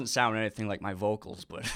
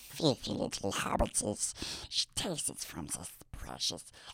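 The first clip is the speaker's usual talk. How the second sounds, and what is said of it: Raspy Gollum-like creature voice. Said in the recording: “some of the vocals that you do sound a little Smeagol-ish. a little bit like Gollum ... do a little impersonation ... Of Smeagol?”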